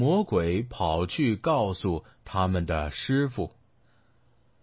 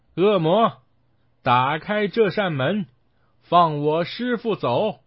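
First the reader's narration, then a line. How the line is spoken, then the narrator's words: Shouting. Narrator (Chinese): 孙悟空喊道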